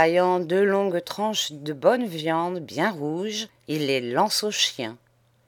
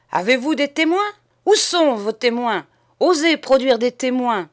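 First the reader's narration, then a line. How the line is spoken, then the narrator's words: Shouting captain. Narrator (French): hurle le capitaine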